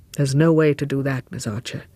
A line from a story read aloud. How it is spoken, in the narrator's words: Lord Warburton said gravely